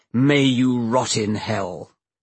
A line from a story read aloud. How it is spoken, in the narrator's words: Peter Atkins splendidly growled